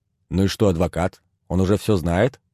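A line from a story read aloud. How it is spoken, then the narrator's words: Plain. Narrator (Russian): спросил тот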